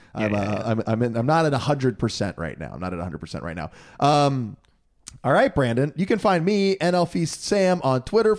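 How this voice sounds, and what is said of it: Slightly hoarse voice. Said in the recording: “my voice is a little hoarse from screaming all the explicit versions of songs on Saturday night”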